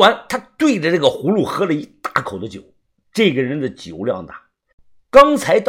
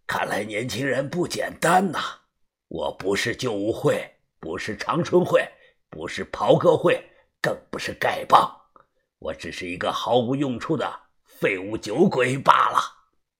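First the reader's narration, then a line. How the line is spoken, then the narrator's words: Hoarse. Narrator (Chinese): 声音沙哑的说道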